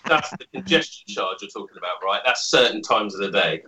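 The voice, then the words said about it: Noticeable accent. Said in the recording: “I love the accent.”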